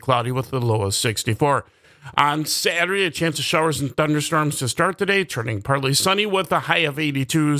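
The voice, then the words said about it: Raspy, slightly strained voice. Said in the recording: “my voice is a little bit raspy this morning. Yes, trying to not get too excited during that Packers game last night.”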